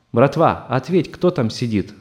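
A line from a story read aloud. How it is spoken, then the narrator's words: Stern, from across. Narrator (Russian): строго спросили из камеры напротив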